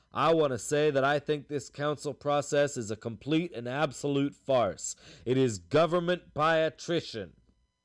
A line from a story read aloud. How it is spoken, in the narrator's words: said in a loud and angry voice